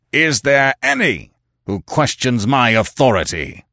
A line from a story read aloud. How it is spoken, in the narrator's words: he roared